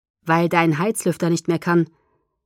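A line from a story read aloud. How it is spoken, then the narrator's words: Calm. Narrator (German): sagte Edward ruhig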